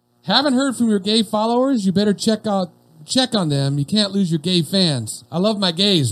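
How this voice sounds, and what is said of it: Put-on country accent. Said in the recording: “Like how I put the country accent in it?”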